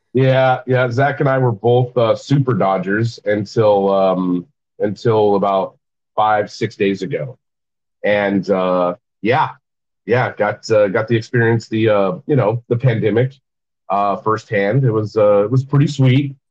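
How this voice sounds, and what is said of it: Sick, congested-sounding voice. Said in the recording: “I'm sick, if you can't tell by my voice.”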